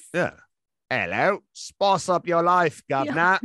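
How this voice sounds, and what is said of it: Put-on British accent. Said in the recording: “Have to talk with a British accent the entire show”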